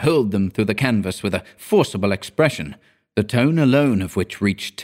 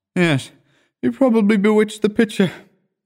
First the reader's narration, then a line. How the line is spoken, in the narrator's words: I said, yawning